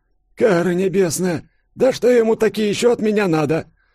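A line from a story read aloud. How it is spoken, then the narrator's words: Groaning. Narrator (Russian): простонал хозяин квартиры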